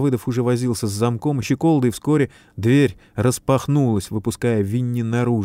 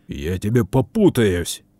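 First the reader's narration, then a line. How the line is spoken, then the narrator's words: Stunned, outraged growl. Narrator (Russian): рыкнул ошалевший от такой наглости Капустин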